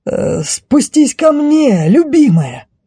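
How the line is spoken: Exclaimed. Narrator (Russian): воскликнул рыцарь

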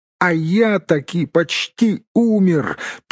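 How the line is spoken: Squeak. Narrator (Russian): пискнул Бильбо

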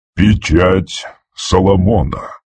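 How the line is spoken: Breathed out. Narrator (Russian): выдохнул он

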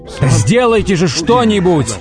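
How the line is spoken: Yelling. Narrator (Russian): вопил он

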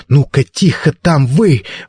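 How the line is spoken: Elderly woman's sharp shout. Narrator (Russian): прикрикнула пожилая мисс Маккорт

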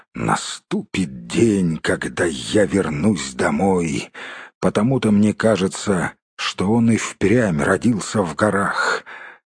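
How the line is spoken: Quiet grumble under breath. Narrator (Russian): тихонько ворчал себе под нос

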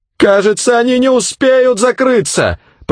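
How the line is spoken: Shouted. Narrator (Russian): прокричала

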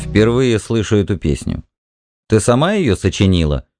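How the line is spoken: Stern question. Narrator (Russian): строго спросил

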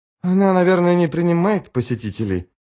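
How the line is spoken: Weak mutter. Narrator (Russian): слабо пробормотала начальница дока

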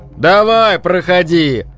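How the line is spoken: Shout. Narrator (Russian): крикнул Филин

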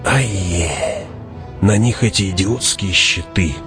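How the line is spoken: Hissing close to ear. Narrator (Russian): прошипел Фриман над ухом Хавата

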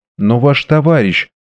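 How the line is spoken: Timid speech. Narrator (Russian): робко произнесла леди Чальсбери

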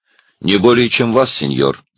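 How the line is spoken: Calm reply. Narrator (Russian): спокойно ответил Цвик

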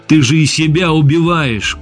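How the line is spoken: Shout. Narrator (Russian): крикнул я

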